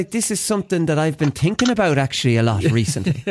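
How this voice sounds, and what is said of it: Put-on Dublin accent. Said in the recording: “can't do a Cork accent. This is something now that, I did a Dublin one.”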